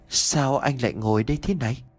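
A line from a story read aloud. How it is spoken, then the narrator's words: Soft, timid, sobbing voice. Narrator (Vietnamese): một tiếng nói nhỏ nhẹ rụt rè pha lẫn cả tiếng nấc nghẹn ngào ai oán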